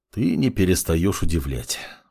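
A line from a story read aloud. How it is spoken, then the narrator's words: Sighing magician. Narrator (Russian): вздохнул маг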